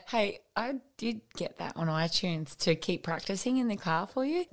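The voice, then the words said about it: Croaky voice. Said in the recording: “my voice is croaky today from practicing so hard”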